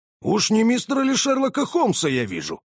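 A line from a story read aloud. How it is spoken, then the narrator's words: Boxer exclaiming. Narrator (Russian): воскликнул боксер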